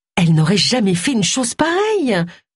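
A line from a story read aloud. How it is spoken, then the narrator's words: Exclaimed. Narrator (French): s'exclama Tony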